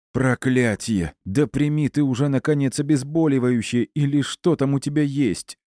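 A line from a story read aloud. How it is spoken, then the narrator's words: Strained, forced-out words. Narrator (Russian): выдавил из себя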